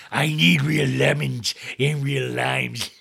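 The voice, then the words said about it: Imitates another person's voice. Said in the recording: “I'm trying a different voice.”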